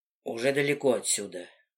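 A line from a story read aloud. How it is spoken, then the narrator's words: Mutters. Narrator (Russian): бормочет Листер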